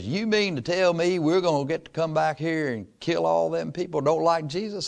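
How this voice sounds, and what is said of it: Imitated West Texas accent. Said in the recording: “in that West Texas accent, what I can't even imitate very well”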